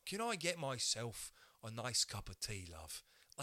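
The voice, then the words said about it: Put-on British accent. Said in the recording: “I would love to sound British.”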